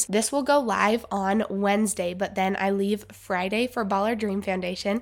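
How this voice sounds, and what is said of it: Stuffy, congested voice. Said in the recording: “I sound a little different. I've had a little bit of a cold, so I've been a little stuffy, so my voice might sound a little different”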